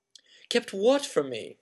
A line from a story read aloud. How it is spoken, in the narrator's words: said Harry eagerly